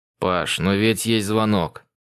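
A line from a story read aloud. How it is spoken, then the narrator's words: Grumbling. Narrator (Russian): Проворчал Соло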